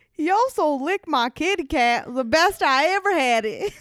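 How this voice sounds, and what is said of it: Silly put-on accent. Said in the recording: “Your freaking stupid accent.”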